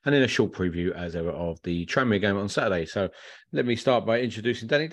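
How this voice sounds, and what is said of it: Congested voice with a cold. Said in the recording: “I've got a bit of a cold. ... I've got a bit of a throat going on.”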